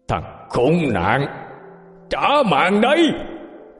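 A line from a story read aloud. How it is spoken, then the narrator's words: Roar, man. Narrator (Vietnamese): Người đàn ông gầm lên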